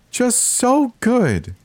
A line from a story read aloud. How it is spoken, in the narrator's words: said in a high-pitched, chirpy tone